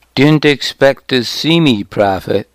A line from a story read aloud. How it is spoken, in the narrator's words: he said